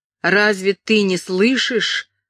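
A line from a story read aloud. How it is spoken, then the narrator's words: Shouting. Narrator (Russian): закричал он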